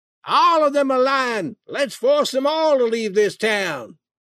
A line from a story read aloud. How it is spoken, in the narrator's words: Several men shouted